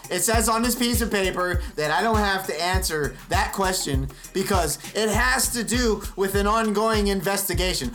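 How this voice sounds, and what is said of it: Imitates another person's voice. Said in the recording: “my impression of the Mueller testimony”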